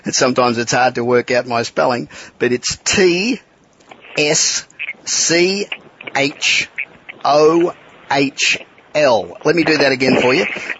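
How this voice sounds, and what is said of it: Australian accent. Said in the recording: “being Australian accent”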